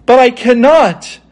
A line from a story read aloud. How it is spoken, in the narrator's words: exclaimed Dorothy, greatly surprised